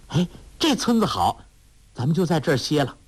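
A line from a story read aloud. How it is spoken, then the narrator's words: Calling out. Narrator (Chinese): 黄蓉叫道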